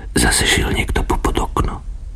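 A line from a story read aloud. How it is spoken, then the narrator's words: Whispered. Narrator (Slovak): povedala po šepky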